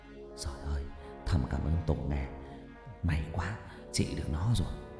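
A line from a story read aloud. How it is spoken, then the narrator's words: Old person muttering. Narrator (Vietnamese): Cụ Mỹ lẩm bẩm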